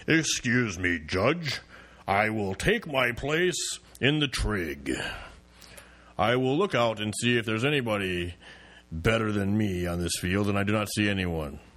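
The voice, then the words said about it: Thor character voice. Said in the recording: “let me do my impression. ... This is what I would see Thor throwing the hammer. I'm Thor throwing a hammer.”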